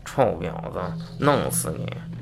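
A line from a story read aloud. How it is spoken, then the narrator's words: Angry muttering. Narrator (Chinese): 大叔很气愤，嘟囔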